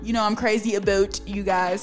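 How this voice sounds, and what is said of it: Put-on Canadian accent. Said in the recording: “That was my Canadian little accent.”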